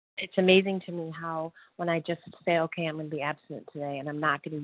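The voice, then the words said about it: Mumbled, slightly indistinct speech. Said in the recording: “I'm mumbling a little bit”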